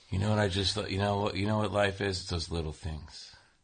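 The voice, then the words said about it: Soothing deep radio voice. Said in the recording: “the best radio voice of us ... your voice is very, like, soothing ... You're like the new Sam Elliott.”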